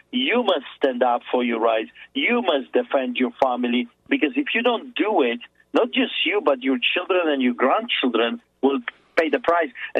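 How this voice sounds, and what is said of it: Speaks with a noticeable accent. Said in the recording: “please believe my accent.”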